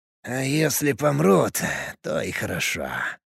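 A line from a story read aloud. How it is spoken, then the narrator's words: Muttering. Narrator (Russian): пробормотал он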